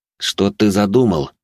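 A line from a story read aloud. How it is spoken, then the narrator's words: Through clenched teeth. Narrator (Russian): процедил Сервантес сквозь зубы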